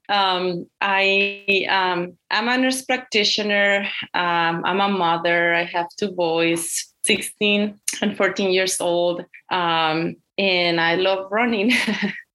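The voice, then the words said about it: Strong Mexican Spanish accent. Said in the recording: “I was born and raised in Mexico ... I came to the United States when I was 21 years old. So I have this strong accent.”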